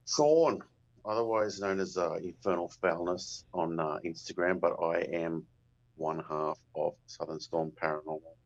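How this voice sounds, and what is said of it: Australian accent. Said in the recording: “we can tell by your accent you're from Australia”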